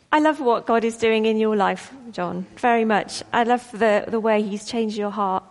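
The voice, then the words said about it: Emotional, tearful voice. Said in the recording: “I'm all a bit emotional. ... You always make me cry.”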